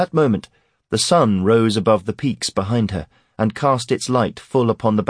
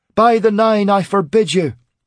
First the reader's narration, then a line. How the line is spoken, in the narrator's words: she shouted